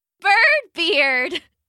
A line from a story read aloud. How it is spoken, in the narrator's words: Claire laughed